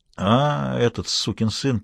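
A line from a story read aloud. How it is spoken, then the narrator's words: Drawling. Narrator (Russian): протянула Лоретта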